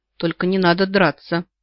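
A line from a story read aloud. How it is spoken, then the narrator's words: Tired plea. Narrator (Russian): прошу устало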